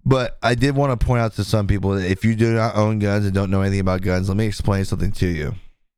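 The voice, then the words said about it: Slightly raspy, tiring voice. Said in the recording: “lose my voice a little bit. Not lose my voice, but it's starting to get a little raspy.”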